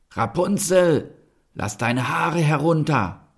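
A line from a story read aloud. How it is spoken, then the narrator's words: Called out. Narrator (German): rief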